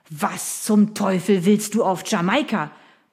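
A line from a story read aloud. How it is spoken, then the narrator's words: Blustering. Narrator (German): polterte Sir William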